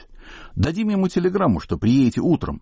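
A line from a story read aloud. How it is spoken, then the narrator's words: Cheerful. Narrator (Russian): весело сказал Осип Эмильевич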